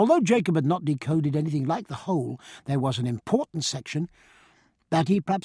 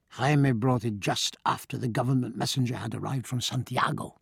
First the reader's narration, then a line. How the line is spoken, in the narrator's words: in a low voice, Jacob said